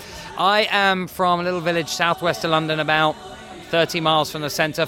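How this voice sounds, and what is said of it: English accent. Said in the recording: “obviously from the accent, you're from England”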